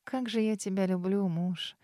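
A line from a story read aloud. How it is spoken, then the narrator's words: Muffled murmur. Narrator (Russian): Пробормотала куда-то в шею Дара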